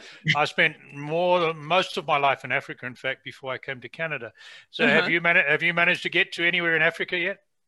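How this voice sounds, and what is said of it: Non-North American accent. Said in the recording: “you can probably hear from my accent that I haven't been in North America all my life”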